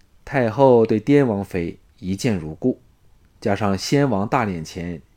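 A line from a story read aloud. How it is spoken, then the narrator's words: Soft, smiling. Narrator (Chinese): 李渊向庄夫人展露了一个…笑容，柔声说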